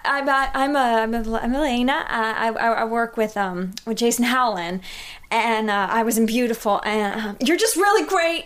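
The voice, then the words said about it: Weak put-on Southern American accent. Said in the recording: “I had like an accent ... and like Southern ... I was having a Southern accent ... That was Southern, like Jennifer Lawrence was Russian in Red Sparrow”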